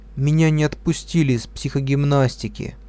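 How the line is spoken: Sad, dull voice. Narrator (Russian): Лиля пришла домой грустная ... потухшим голосом сказала

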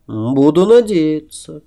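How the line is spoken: Sad, smiling. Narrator (Russian): печально улыбнулся я

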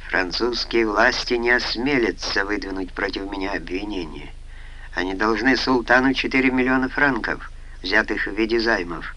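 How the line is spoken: Grim. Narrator (Russian): мрачно заявил Халид

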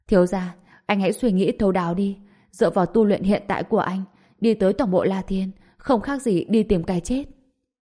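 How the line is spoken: Dejected, sighing. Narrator (Vietnamese): cuối cùng trở nên suy sụp, thở dài nói

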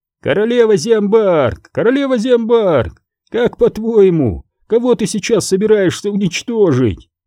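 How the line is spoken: Sudden shout. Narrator (Russian): Джари вдруг закричал

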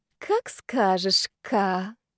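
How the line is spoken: Honeyed sweet voice. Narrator (Russian): медовым голосом ответила я

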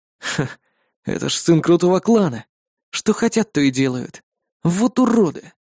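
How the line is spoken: Exhaled. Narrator (Russian): Выдохнул я

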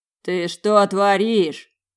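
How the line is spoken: Growl. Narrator (Russian): прорычал лорд Гавельгот

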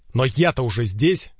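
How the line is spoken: Impatient barking. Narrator (Russian): рявкнул Ворон, теряя терпение

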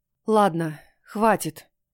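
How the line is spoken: Exasperated exhale. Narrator (Russian): выдохнула

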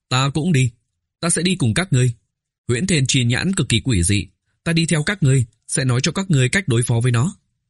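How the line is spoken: Fervent, raised voice. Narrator (Vietnamese): Oanh Oánh nhiệt huyết sôi trào, cao giọng nói

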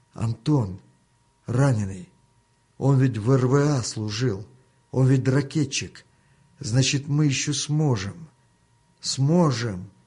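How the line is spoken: Startled loud whisper. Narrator (Russian): встрепенулся и громко прошептал

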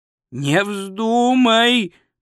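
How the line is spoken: Groaning. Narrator (Russian): простонал Ринсвинд

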